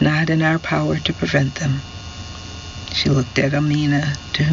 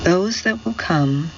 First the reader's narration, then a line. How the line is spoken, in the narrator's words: she said in a tired voice